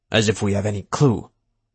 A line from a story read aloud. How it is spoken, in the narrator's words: Barker grumbled